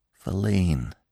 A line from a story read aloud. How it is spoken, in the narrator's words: said Gobbo softly